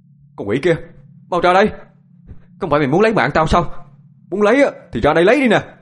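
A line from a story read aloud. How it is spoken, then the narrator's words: Loud shout. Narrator (Vietnamese): Anh hét to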